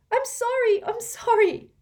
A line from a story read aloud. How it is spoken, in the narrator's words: Hermione cried